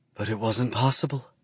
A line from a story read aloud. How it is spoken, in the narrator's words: she whispers